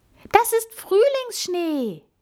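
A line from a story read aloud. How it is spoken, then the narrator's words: Called out. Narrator (German): rief Amalie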